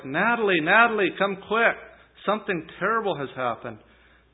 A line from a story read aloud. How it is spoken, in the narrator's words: He then shouted to his wife